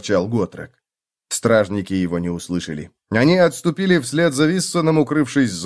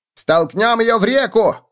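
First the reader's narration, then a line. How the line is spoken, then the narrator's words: Shouting. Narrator (Russian): крикнул кто-то на мосту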